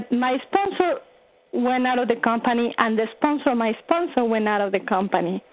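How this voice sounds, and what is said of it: Distinctive accent. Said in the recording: “I absolutely love your accent... It tickles me. I love the sound of it.”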